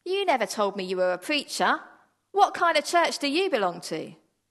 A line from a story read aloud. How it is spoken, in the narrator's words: the owner of the diner called out